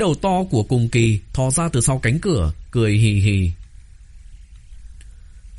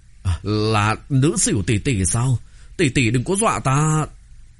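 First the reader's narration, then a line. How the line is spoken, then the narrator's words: Trembling, nervous giggling. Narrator (Vietnamese): Thái Tuế thân thể không khỏi run rẩy, cười hì hì nói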